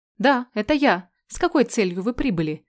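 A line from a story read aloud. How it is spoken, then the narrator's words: Stern reply. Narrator (Russian): отвечаю строго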